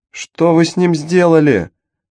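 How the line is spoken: Screaming while running. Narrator (Russian): завопила она на бегу

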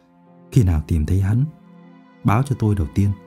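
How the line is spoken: Soft. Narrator (Vietnamese): Đỗ Ninh nói khẽ

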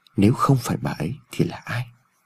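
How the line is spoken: Inaudible mutter. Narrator (Vietnamese): Ông Phúc lẩm bẩm trong miệng mà không người nào nghe thấy

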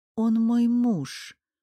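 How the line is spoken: Dejected voice. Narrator (Russian): упавшим голосом сказала Грата Виктория

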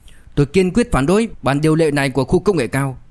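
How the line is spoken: Loud, resolute. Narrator (Vietnamese): Lý Đức Lâm không chút do dự lớn tiếng

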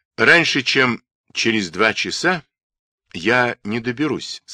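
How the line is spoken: Plain. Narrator (Russian): сказал шеф

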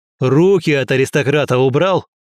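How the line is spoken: Barking snap. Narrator (Russian): Рявкнул я

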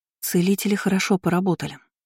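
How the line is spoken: Whisper. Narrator (Russian): прошептала Айнену Кейра

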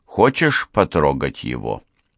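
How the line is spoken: Plain. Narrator (Russian): спросила она

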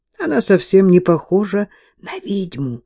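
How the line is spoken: Whisper in ear. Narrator (Russian): прошептала Мэтти на ухо Кейт

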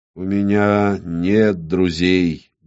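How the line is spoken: Lifeless male voice. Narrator (Russian): Безжизненным голосом ответил мужчина

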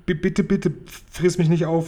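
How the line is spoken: Stuttering. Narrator (German): stotterte Sophiechen

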